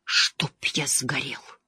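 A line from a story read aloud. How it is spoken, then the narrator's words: Weak voice. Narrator (Russian): слабым голосом произнес Мэтт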